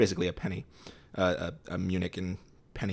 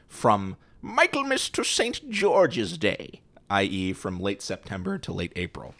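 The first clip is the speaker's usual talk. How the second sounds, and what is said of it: Put-on old English accent. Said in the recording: “That certainly wasn't German accent. No, that was more of a that was more of an English. Eng- it's me, Scrooge.”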